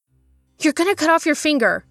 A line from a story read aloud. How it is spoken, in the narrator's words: Lo gasped